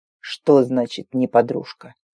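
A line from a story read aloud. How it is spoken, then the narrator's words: Menacing growl. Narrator (Russian): Грозно рыкнул старший конук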